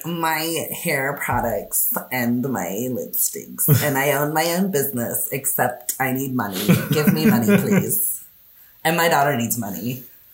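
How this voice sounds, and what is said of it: Sassy gay character voice. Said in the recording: “It's my sassy gay voice. ... That's pretty good.”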